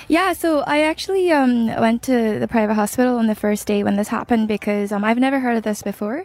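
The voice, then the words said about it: Irish-sounding accent. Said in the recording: “you then developed an Irish accent ... I woke up with an Irish-sounding accent, which I don't recognise at all ... a foreign accent that's not mine”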